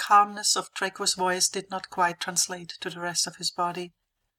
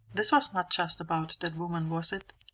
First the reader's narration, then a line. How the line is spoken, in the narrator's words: Harry asked quietly